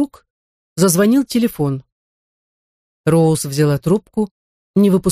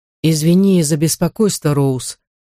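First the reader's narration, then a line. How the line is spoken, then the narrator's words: Soft, lifeless voice. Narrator (Russian): сказал Барсам мягким, но безжизненным голосом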